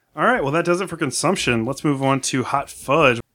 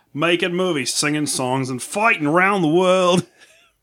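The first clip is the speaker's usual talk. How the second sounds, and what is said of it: Put-on Australian accent. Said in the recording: “It's not a bad Australian accent.”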